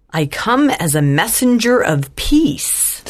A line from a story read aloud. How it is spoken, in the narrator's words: said Mrs